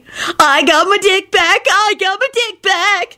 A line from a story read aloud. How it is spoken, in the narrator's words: he cackled